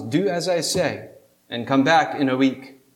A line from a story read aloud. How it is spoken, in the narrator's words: the rabbi calmly responds